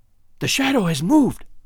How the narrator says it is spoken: I cried

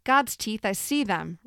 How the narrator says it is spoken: Ruth shouted

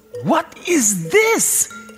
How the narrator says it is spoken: he screeched

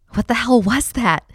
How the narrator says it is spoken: I asked her breathlessly

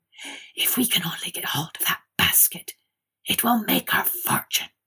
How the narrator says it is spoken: they found time to whisper to each other

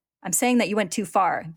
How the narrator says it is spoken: the officer snaps

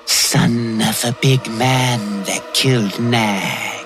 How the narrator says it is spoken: she hissed

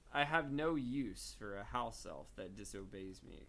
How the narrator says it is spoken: Crouch said coldly

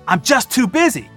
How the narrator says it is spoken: he exclaimed, trying to defend himself

